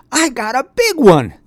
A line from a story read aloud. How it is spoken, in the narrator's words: he yelled